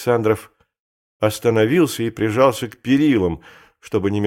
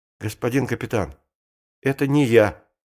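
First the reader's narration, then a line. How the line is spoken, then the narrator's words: Quiet but firm. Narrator (Russian): сказал тихо, но твердо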